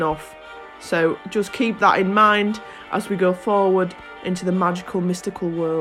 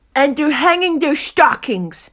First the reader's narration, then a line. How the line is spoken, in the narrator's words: snarled with a sneer